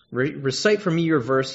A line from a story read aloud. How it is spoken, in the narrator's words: answered